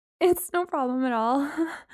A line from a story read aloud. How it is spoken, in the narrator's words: I said, my attempt at a laugh sounding more like a whimper